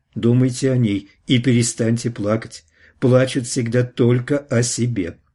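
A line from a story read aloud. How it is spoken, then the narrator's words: Plain. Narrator (Russian): ответил И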